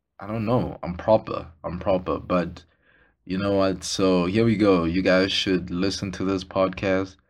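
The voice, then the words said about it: Voice off, struggling to talk properly. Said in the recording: “sorry about my voice ... I can't talk properly. I can't talk to even save my life today”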